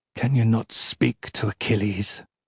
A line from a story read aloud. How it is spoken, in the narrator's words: he says hoarsely